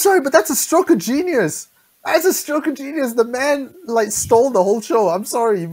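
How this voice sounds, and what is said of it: Usual voice. Nothing is said of it.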